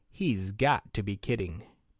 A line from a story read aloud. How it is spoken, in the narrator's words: They murmured